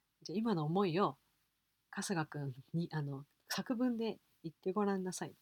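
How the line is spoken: Plain. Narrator (Japanese): って言って

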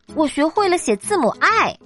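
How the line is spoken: Very excited squeal. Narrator (Chinese): 小老鼠非常兴奋的叫道

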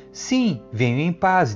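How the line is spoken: Plain. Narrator (Portuguese): disse

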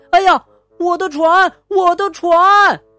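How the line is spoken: Boy yelling. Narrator (Chinese): 小男孩大叫

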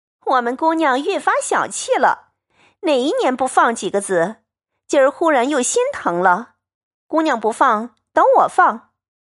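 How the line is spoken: Laughing. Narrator (Chinese): 紫娟笑道

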